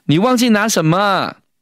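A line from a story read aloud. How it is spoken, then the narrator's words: Shouting. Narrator (Chinese): 小慧就喊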